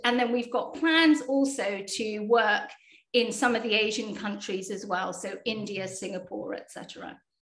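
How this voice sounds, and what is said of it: British accent. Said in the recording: “You can tell by my accent that, you know, most of us are actually based in the UK”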